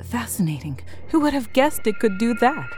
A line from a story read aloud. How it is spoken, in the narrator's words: Glactol would mumble